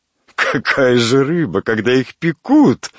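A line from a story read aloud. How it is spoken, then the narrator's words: Laughing woman. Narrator (Russian): рассмеялась дама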